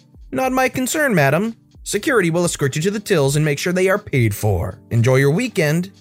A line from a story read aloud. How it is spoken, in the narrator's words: with a dazzling customer service smile, chirped